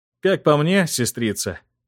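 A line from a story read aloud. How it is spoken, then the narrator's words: Snort. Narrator (Russian): хмыкнул принц Эрик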